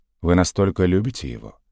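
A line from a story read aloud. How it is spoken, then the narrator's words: Suspicious, gloomy question. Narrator (Russian): подозрительно и мрачно осведомился он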